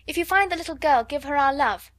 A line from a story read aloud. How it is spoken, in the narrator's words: shouted Guy Clarence, jumping up and down on the doormat